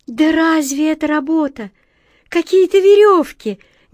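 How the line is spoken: Heated exclamation. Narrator (Russian): горячо воскликнула Белка

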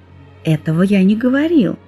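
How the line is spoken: Gentle. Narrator (Russian): мягко сказал Шувалов

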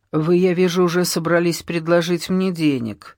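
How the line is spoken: Calm. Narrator (Russian): спокойно сказал Штарк

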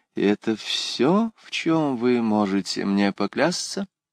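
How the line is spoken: Quiet question. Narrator (Russian): тихо спросила

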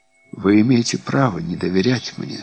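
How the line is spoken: Soft yet dignified. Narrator (Russian): сказала она мягко, но с достоинством

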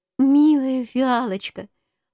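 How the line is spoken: Tender exclamation, bear cub. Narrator (Russian): воскликнул медвежонок

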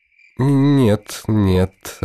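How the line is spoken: Through gritted teeth, vexed. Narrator (Russian): отвечает Мусабай сквозь зубы, а сам чуть не стонет от досады

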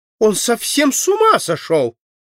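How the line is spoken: Indignant exclamation. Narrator (Russian): с возмущением воскликнула принцесса

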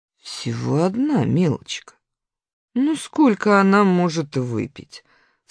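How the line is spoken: Calm. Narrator (Russian): спокойно ответила Раневская

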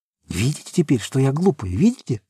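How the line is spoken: Whispering. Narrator (Russian): зашептала Сима

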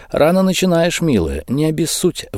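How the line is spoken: Sighing empress. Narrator (Russian): вздохнула императрица

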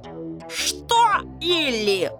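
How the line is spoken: Roared. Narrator (Russian): взревел Сэм

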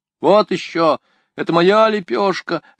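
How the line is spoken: Whining. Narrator (Russian): захныкал он

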